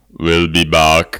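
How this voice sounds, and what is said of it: Arnold Schwarzenegger impression. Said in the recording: “He does a better Arnold voice ... Yeah, you're so good. You're so good.”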